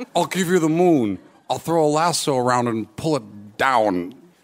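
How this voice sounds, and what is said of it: Poor Jimmy Stewart impression. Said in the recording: “Your date does their best impression of Jimmy Stewart ... this is a terrible Jimmy Stewart.”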